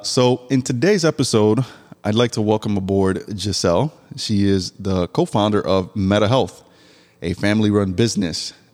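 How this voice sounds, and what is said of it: Stuffy, congested voice. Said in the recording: “my voice sounds a little bit stuffy... I got like the runny nose, my, my throat feels scratchy. So, my voice sounds a little funky”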